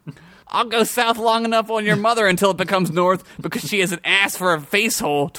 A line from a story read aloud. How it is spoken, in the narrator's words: Tweezers yelled